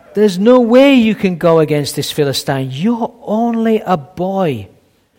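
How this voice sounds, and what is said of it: Very northern accent. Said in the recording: “in a very northern accent”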